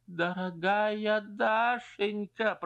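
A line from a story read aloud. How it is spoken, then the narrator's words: Moan. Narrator (Russian): простонал Стрижин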